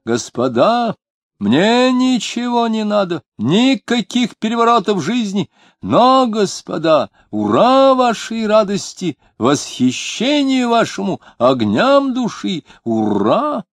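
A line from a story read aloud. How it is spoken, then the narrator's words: Man shouting. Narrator (Russian): длинный лысый чиновник и кричал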